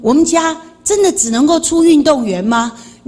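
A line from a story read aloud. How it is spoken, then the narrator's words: Sighing father. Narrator (Chinese): 我爸爸又叹气，他说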